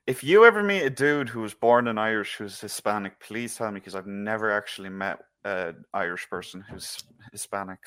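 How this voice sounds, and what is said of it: Irish accent. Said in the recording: “Yes, I am Irish. Just to break it to you, if you can't figure out my accent.”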